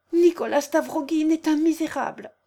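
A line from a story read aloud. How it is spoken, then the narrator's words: Exclaiming. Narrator (French): s'écria-t-elle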